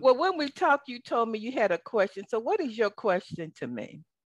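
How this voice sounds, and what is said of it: Southern American accent. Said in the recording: “I know you love my southern accent”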